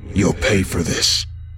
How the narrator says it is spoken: growled, his voice demonic

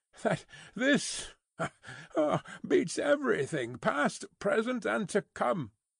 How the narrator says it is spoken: laughed Stryver with a vexed laugh

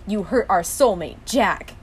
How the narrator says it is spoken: Dean growled

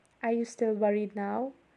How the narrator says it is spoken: He murmured against my skin

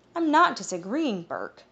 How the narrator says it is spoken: he groaned

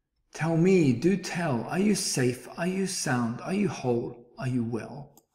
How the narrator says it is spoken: cried the elephant

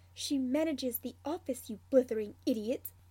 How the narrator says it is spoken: Snivellus snaps

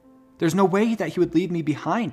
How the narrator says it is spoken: she cried

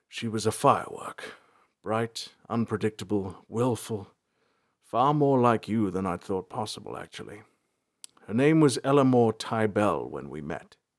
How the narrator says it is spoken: He heaved a large sigh and said

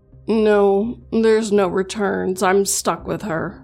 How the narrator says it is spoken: Jason said in a frustrated tone

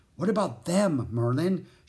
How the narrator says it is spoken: she asked anxiously

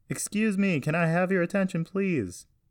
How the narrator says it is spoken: Carson yell into a microphone

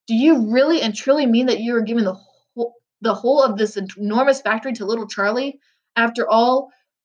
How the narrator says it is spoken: stammered Grandpa Joe

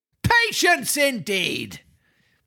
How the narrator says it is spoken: shouted his master

